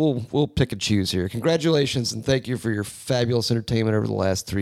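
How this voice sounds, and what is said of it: Usual voice. Nothing is said of it.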